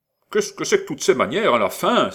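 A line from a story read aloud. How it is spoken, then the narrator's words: Angry exclamation. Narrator (French): s'écria Madame Canada, dont tous les exordes jaillissaient ab irato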